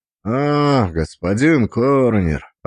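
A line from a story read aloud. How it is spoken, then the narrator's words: Drawling. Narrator (Russian): протянул один из них, тот, что повыше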